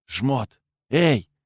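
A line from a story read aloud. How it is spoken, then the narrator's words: Whisper while walking. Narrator (Russian): прошептал я на ходу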